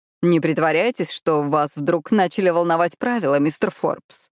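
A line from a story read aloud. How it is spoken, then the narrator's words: Mocking. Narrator (Russian): насмешливо произнес Люка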